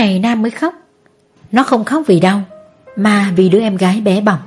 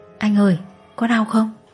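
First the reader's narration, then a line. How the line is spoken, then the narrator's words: Child asking. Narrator (Vietnamese): Bé Hạnh ... hỏi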